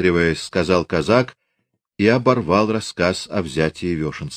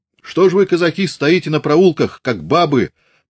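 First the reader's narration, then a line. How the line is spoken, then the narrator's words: Tearful shout. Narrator (Russian): плачуще крикнул он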